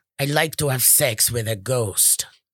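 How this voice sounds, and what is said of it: Put-on deep voice. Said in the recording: “That was not a German accent ... It's just a deep voice.”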